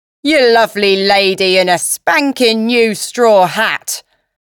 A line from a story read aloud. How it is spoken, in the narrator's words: bellowed, a man just behind me